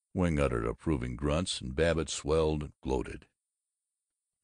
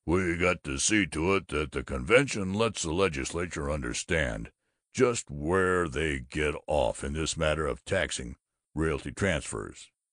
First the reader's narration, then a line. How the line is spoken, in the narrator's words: He thrust out his abdomen and rumbled